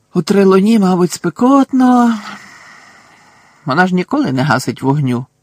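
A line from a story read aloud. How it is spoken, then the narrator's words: Sigh. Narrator (Ukrainian): зітхнув Рон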